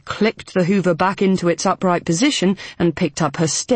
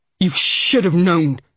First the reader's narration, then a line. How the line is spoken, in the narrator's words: the old lady snapped